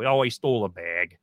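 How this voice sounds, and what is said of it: Upper Midwest accent on bag. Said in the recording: “the Minnesota nice accent ... he has these accents ... The big one is bag”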